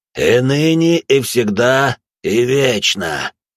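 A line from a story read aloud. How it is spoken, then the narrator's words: Hoarse priest. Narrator (Russian): прохрипел отец Марк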